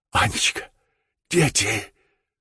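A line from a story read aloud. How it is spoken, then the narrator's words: Hoarse croak. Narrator (Russian): прохрипел он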